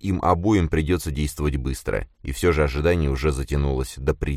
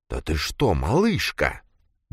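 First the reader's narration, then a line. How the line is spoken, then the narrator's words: Barely audible whisper. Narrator (Russian): ее голос прозвучал еле слышным шепотом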